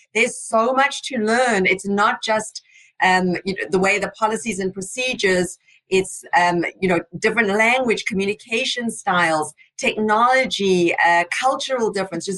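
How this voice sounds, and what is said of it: South African accent. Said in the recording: “another immigrant who came from South Africa... I've still proudly got my South African accent”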